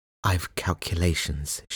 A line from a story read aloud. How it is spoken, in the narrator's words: she whispered